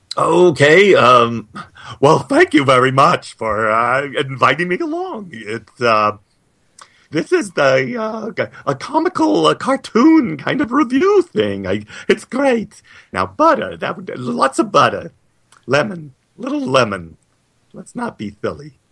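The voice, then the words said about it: Cartoon Mad Hatter character voice. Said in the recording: “Why don't you close this episode as the Mad Hatter?”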